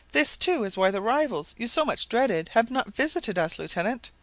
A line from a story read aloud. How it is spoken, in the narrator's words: exclaimed Madge